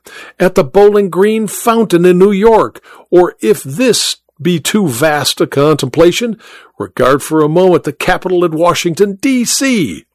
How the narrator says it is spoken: he cried with enthusiasm

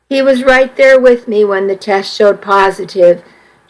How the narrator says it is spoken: she said

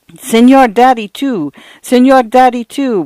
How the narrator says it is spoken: would come Paula's protesting wail

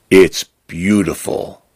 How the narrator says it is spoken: Fern says softly

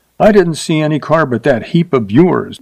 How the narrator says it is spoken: she said sharply

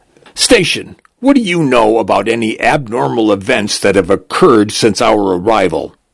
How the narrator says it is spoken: A tall, thin woman barks

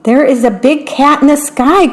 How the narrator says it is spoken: cried the little mouse

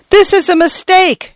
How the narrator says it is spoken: yelled

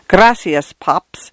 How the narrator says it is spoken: in an infestation of the giggles

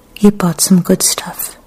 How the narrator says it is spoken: Kikuko said in a gentle voice that didn't betray any emotion

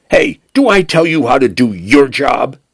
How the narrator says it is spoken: Penn snapped

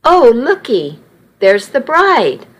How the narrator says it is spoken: one older lady exclaimed

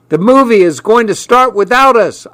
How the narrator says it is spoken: I yelled

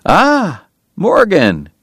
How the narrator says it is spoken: Doc cried genially

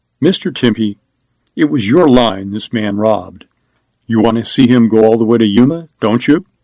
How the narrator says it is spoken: Scallon said calmly

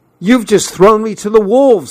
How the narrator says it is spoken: I shouted

